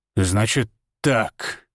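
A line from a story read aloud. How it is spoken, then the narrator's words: Low venomous hiss. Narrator (Russian): прошипел он, и его голос стал низким и ядовитым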